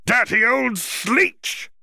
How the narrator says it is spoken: the Jarvi cried

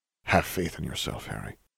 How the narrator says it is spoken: Dumbledore murmured

